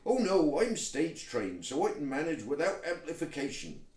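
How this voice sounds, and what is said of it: Toad character, vaguely West Country accent. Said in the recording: “that's my toad accent ... He has to be from somewhere vaguely in the west of England”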